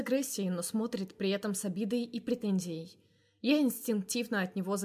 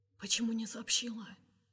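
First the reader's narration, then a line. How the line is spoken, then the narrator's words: Whispered question. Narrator (Russian): спрашивает Кирилл шепотом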